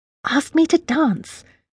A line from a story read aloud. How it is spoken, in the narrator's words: she hissed